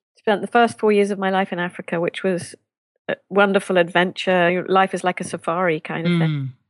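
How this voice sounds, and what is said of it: Non-American accent. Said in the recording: “I love your accent... you would have an accent”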